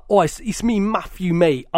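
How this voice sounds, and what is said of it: London accent imitating Matthew. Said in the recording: “his accent is like ... you're London ... it's London, mate”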